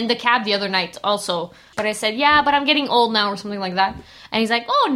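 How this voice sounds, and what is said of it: Usual voice. Nothing is said of it.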